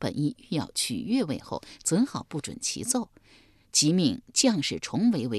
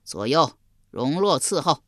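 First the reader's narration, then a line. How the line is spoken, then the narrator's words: Delighted, loud. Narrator (Chinese): 襄王喜得合不拢嘴，高声说道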